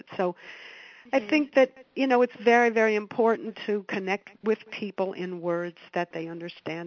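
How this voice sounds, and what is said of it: Hoarse voice. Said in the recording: “my hoarse voice because of my 3-day cold”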